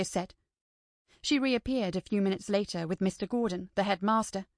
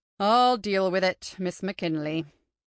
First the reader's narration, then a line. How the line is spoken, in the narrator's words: he sighed